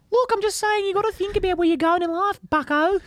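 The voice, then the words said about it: Creepy Kermit-like impression voice. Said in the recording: “I sound like a sex offender... You sound like Kermit.”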